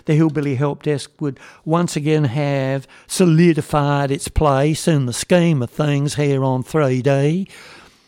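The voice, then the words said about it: Put-on fake accent. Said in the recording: “if you'll pardon my fake accent.”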